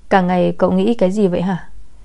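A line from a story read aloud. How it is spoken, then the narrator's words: Bursting out laughing. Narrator (Vietnamese): không nhịn được mà bật cười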